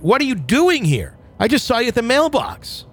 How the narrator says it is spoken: The hair on the back of my neck went up and I screamed

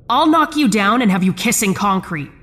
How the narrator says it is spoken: I shouted

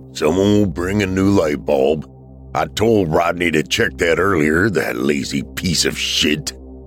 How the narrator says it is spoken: He scoffed and muttered a string of colorful language and grumbled

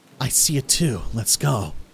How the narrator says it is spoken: quietly tell him

